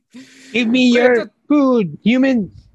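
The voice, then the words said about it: Goblin-like monster voice. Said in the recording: “that weird goblin in the side ... That's what my voice is suited for, like random monsters.”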